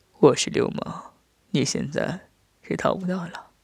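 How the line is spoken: Soft breathy whisper. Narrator (Chinese): 在他耳边喷着热气，轻声说道

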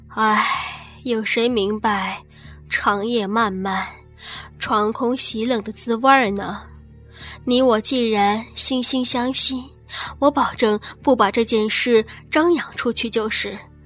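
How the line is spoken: Long wistful sigh. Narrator (Chinese): 孙寡妇也悠悠叹道

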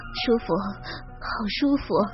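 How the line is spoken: Blissful murmur. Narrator (Chinese): 他幸福的叫着，喃喃的说

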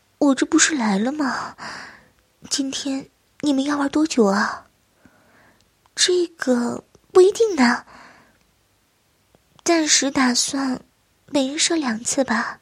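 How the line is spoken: Low, tearful voice. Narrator (Chinese): 王小燕眼圈一红，低声道

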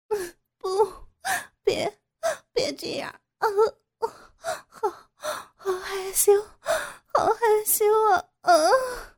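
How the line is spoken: Crying out. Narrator (Chinese): 傅菊英不停的摇着头哭叫

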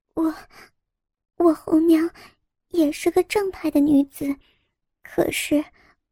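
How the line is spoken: Very quiet, hesitant. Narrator (Chinese): 红娘很小声的说

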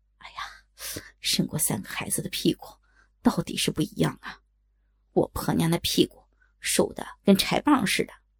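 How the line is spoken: Admiring exclamation. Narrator (Chinese): 耳边传来赞叹声

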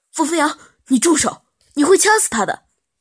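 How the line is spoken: Panicked shout. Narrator (Chinese): 杜安生脸色一下子都白了，他慌忙喊着

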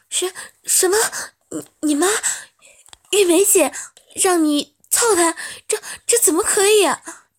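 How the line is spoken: Stunned stammering. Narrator (Chinese): 干娘听得张口结舌，结结巴巴的道

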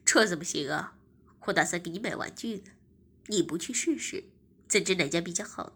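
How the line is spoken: Smiling. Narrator (Chinese): 我笑着说

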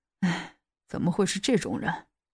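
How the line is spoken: Sighing. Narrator (Chinese): 叹了一口气

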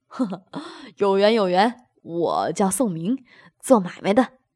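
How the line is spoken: Hearty laugh. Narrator (Chinese): 宋明哈哈一笑，道

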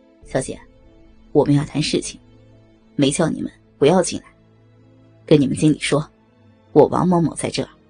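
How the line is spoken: Calm, indifferent. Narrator (Chinese): 校董淡淡的告诉服务生

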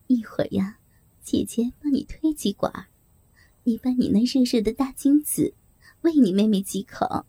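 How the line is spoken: Flirtatious laughing whisper. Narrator (Chinese): 梅姐浪笑着，小声在男人的耳边说

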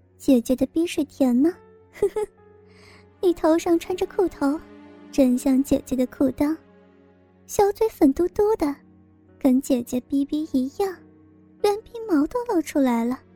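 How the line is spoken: Laughing loudly. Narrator (Chinese): 小雪哈哈大笑

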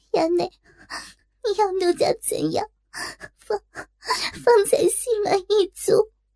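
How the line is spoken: Ashamed, crying. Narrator (Chinese): 羞得又红至脖根，忙哭道

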